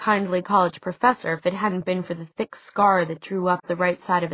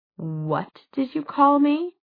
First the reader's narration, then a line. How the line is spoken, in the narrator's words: Jace laughed